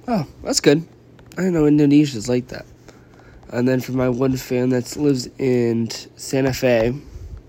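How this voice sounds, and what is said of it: Congested voice from a cold. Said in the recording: “I have a cold. That's why I keep yawning and I don't feel good.”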